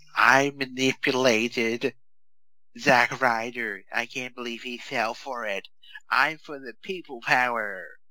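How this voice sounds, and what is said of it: Imitates another person's voice. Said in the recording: “good impression”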